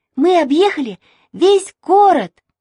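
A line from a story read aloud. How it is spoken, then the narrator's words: Shouted. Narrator (Russian): закричала Маша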